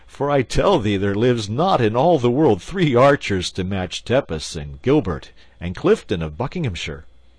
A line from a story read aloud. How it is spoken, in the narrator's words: said the king, laughing